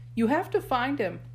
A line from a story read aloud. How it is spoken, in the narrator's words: Sadie cried